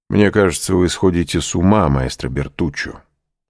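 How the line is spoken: Cold reply. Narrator (Russian): холодно отвечал граф

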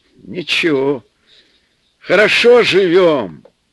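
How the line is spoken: Exclaiming. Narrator (Russian): воскликнул отец

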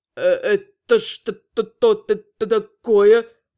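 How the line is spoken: Stammering. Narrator (Russian): Начал заикаться первый влетевший

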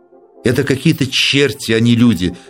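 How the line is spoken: Muttered through teeth. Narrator (Russian): сквозь зубы пробормотал зоолог

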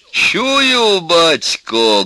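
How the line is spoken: Loud, young man. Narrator (Russian): громко сказал высокий молодой человек

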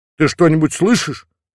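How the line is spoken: Frightened question. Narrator (Russian): испуганно переспросил начальник

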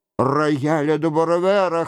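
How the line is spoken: Wheezing. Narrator (Russian): хрипел Рено

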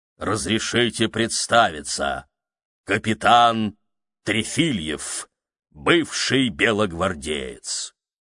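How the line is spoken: Loud, dense voice. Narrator (Russian): громким, плотным голосом произнесла

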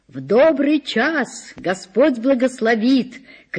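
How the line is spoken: Old woman shouting from afar. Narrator (Russian): кричала с крыльца бабушка

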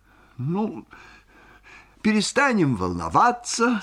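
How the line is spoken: Sweet-voiced doctor. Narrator (Russian): сказал сладким голосом Мамиков, ее домашний доктор

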